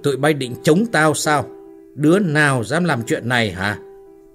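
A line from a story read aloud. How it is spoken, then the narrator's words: Hissed through teeth. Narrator (Vietnamese): Hắn ta nói rít qua kẽ răng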